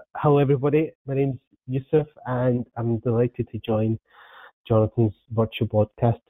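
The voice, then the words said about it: Scottish accent. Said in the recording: “Predominantly worked in Scotland, as you can tell by the accent”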